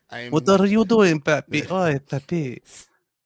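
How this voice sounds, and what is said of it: Put-on Spanish accent. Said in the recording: “Talk with a Spanish accent.”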